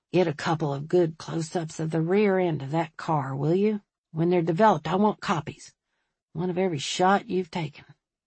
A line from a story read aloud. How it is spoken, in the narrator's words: In a low voice, he said